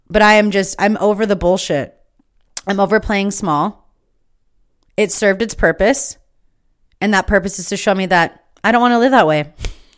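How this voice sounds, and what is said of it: Fired-up, intense, energized voice. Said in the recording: “I am so fueled. I am so fired up. ... you can hear it in my voice.”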